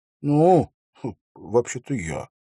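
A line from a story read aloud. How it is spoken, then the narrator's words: Mutter. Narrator (Russian): пробормотал он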